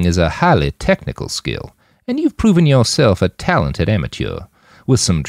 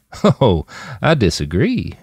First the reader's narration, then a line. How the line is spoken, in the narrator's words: Jim chuckled